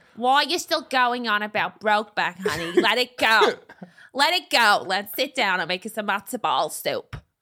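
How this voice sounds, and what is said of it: Put-on New York Jewish accent. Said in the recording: “And we're both American ... Somehow Jewish ... Yeah, it was kind of like that New York.”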